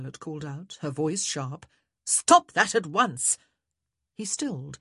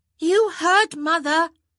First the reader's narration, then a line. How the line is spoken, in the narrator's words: Hyacinth called out